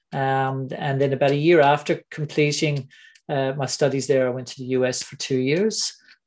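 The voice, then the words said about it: Mixed Irish, Anglo-American, Australian accent. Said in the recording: “I have an Irish, Anglo-American, Australian accent”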